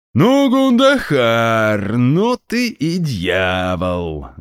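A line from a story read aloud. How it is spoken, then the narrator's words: Cheerful laughing. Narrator (Russian): Глава меридиана весело рассмеялся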